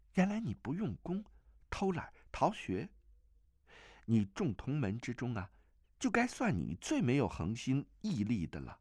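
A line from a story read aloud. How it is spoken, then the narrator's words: Woman, light laugh. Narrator (Chinese): 那女子轻轻一笑道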